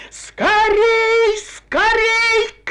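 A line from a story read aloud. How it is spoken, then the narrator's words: Shouting. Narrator (Russian): кричала Дабе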